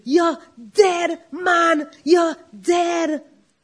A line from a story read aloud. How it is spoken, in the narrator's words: Uncle Johnny shouting